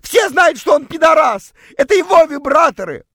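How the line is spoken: Shouted. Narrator (Russian): прокричала

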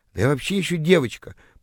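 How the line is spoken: Flustered mumble. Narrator (Russian): пробормотала растерявшаяся тыква

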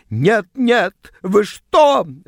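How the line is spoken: Shrieking. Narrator (Russian): взвизгнула она

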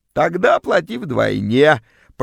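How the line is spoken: Creaky voice. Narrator (Russian): проскрипела вымогательница

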